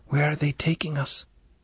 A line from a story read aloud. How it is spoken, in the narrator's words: The whisper trembled